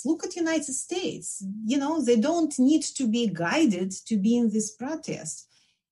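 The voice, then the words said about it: Belarusian accent. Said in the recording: “as you hear from my accent, I'm from Belarus.”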